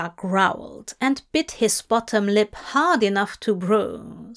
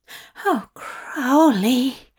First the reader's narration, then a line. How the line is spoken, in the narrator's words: Zira groaned